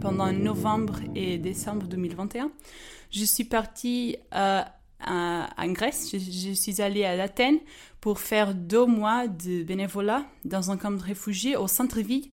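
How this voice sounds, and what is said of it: Slight Portuguese accent in French. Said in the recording (French): “je suis portugaise... j'ai un petit peu d'accent”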